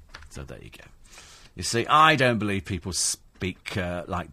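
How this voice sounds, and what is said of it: Usual voice. Nothing is said of it.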